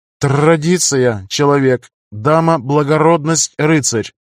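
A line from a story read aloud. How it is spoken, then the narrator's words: Plain. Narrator (Russian): ответила Рагна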